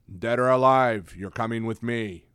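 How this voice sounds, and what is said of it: RoboCop impression, Peter Weller. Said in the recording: “do my RoboCop impression ... Sounds like Peter Weller, right?”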